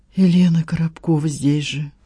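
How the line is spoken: Sighing. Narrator (Russian): вздохнула Надежда

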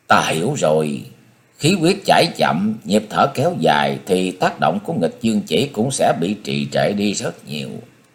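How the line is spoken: Thoughtful realization. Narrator (Vietnamese): ngẫm nghĩ, cô khẽ vỗ tay nói

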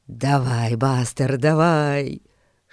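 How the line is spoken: Whisper. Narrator (Russian): шептал Эрн

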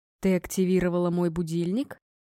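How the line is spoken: Gloomy question. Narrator (Russian): мрачно уточнил он

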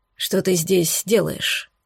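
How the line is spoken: Northerner's hollow voice. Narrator (Russian): спросил северянин глухим голосом

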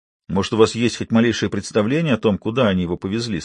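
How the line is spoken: Plain. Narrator (Russian): спросил Айк

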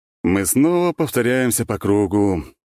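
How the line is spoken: Sighing. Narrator (Russian): вздохнул князь Света

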